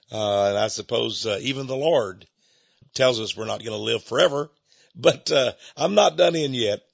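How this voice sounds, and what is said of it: Congested, sick-sounding voice. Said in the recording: “apologize for my voice a little bit. I've had a little case of the flu and congestion.”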